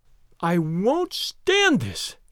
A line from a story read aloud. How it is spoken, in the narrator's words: cried Daisy